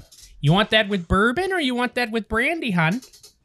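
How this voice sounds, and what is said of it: Put-on Wisconsin accent. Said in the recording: “I'm trying to summon a Wisconsin accent ... She sounds like a character in Fargo ... that's our accent ... There's a lot of oh-yahs.”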